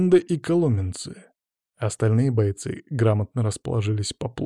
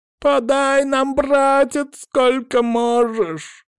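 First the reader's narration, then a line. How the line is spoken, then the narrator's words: Sudden ringing shout. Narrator (Russian): Вдруг заорал крепыш звонким голосом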